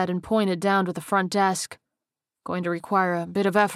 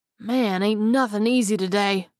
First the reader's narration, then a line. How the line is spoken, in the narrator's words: Frank said with a groan